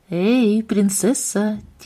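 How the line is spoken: Quiet call, father. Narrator (Russian): тихо позвал отец

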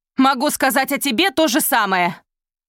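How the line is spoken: Strained shout while riding. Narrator (Russian): крикнула в ответ Изольда, хотя кричать и скакать одновременно было сложно

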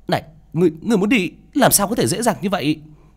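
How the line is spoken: Woman shouting sharply. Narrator (Vietnamese): Nữ Mẫu quát lên

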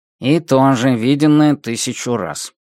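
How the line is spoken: Muttered under breath. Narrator (Russian): буркнул под нос Мотель

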